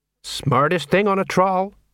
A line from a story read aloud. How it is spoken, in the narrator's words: said Sergeant Colon